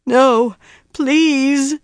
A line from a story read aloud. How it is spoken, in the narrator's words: Mogedion groaned